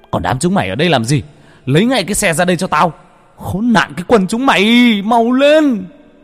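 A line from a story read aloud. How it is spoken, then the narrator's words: Angry yelling. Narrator (Vietnamese): Cha vẫn la hét, mắng chửi đám gia nhân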